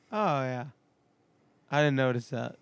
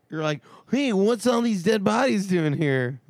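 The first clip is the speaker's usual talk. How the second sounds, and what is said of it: Impression of another speaker. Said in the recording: “That's a good impression of me.”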